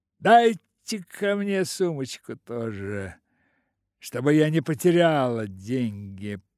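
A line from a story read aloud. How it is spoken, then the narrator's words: Mocking with purring laugh. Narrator (Russian): произнес насмешливо с тихим урчащим смехом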